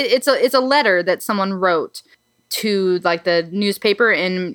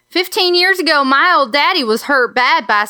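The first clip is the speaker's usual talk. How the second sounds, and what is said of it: Put-on southern backwoods accent. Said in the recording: “a southern backwoods kind of accent ... So I'm going to read it with this accent”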